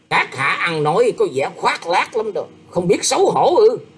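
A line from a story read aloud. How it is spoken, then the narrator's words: Angry. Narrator (Vietnamese): Ngải Đường Dương tức giận nói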